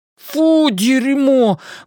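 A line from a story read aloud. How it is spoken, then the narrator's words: Disgusted laughing exclamation. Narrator (Russian): воскликнул Бен с отвращением и смеясь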